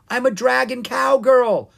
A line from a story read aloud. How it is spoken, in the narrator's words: Ella yelled